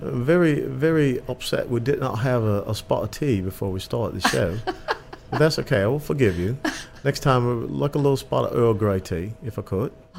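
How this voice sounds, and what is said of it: Put-on British accent. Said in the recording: “So British, be British, please.”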